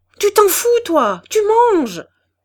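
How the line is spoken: Angry yell. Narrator (French): hurla Levaque

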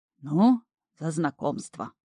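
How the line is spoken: Solemn toast. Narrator (Russian): торжественно провозгласил болотник

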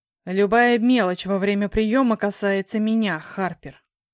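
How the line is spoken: Menacing reply. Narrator (Russian): грозно ответил его светлость

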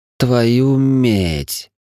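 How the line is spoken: Loud whisper. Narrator (Russian): довольно громко прошептал Гринфилд

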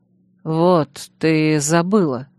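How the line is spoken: Soft, heartfelt. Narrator (Russian): Прозвучало негромко, но проникновенно

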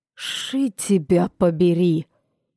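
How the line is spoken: Hissed aloud. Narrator (Russian): прошипел вслух Брэндон

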